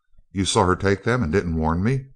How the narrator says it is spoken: croaked Perkins

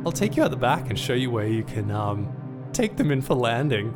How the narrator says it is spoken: laughed

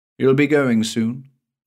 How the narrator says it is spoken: he said

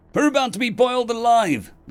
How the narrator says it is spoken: the warrior shouted

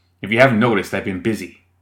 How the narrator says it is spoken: Marlowe snapped

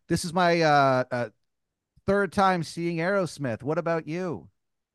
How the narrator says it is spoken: she yells to you

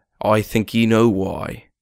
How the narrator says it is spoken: I grumbled

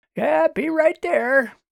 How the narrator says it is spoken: Walter hollered up

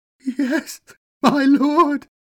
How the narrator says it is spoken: wailed the broken, defeated man

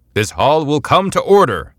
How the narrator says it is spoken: Chamberlain Talwin cried

